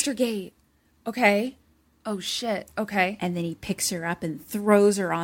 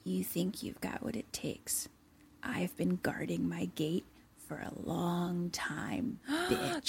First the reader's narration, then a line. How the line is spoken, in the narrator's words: he kind of just whispers into her ear